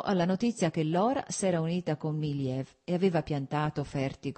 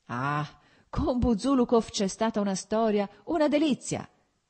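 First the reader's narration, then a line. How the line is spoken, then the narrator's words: Shouting. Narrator (Italian): gridò Petrichki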